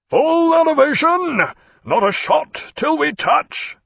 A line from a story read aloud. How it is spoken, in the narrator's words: cried Jack in a tremendous voice